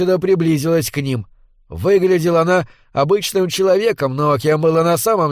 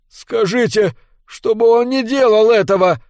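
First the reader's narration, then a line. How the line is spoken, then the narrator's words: Pleaded. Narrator (Russian): взмолился Костенбаум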